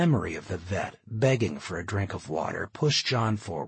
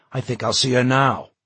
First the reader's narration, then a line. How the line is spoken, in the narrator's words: John said sharply